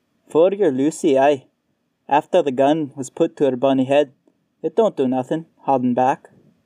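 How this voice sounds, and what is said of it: Scottish accent, eerie voice. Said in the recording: “The Scottish accent came from nowhere and multiple places at the same time”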